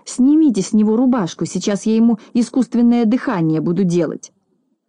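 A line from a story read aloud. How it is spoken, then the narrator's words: Shout. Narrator (Russian): он закричал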